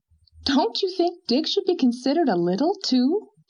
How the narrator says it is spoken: pleaded Anne

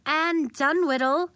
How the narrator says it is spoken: called out Rune

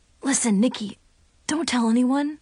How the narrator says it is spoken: he whispered

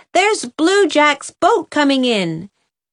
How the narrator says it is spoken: someone exclaimed

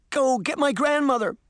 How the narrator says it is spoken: Sabrina cried

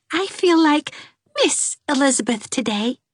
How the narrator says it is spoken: she told Anne with a sigh of delightful excitement

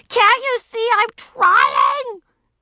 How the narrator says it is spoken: yelled at the top of her voice

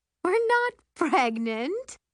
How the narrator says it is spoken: says, still laughing

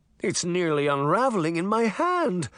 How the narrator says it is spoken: the face wailed

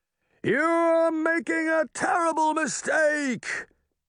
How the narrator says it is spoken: shouted over the sound of the wind

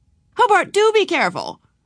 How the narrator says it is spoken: shouted Mrs

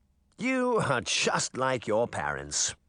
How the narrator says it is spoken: Charming chuckled

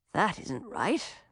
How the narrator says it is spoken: muttered the old dragoness

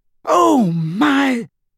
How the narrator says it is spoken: shrieked Hermione

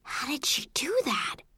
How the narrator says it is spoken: Courtney whispered to me

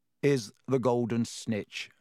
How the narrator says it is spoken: said Harry

